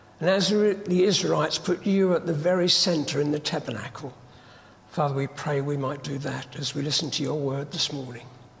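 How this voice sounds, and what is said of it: Husky voice from a cold. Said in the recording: “I've got a rotten cold, so it's a bit husky”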